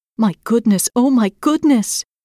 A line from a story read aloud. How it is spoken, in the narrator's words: exclaimed